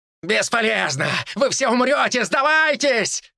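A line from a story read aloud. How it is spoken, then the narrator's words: Monster shouting. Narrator (Russian): кричал монстр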